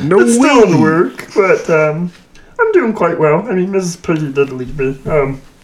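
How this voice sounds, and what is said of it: Weird put-on character voice. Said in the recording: “He's doing a weird voice.”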